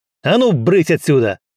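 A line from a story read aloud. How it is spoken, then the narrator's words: Barked. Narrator (Russian): рявкнул Стас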